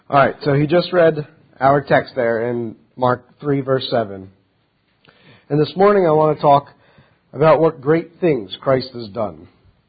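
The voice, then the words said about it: Slightly off, unwell-sounding voice. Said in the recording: “My voice is going to sound a little off. I'm just getting over a little bit of sickness”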